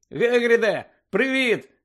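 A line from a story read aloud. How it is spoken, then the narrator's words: Shouted. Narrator (Ukrainian): закричав Гаррі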